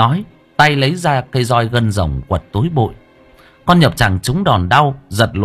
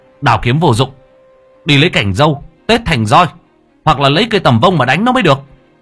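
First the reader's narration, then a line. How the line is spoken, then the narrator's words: Shout. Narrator (Vietnamese): Lễ quát lên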